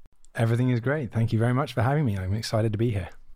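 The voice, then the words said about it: British accent. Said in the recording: “with that accent ... go across the water to the UK. So I hail from a little town near London.”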